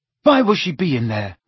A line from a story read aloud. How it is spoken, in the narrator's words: asked Ron anxiously, hurrying to keep up